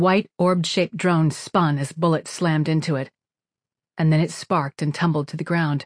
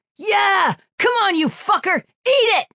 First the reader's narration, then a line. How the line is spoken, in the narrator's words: he was screaming over the radio